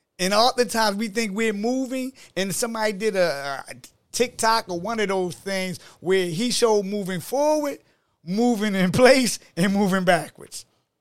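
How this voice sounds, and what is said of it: Baltimore accent. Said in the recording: “I hear your accent. You from Baltimore.”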